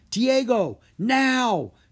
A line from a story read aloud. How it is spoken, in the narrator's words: Drake yelled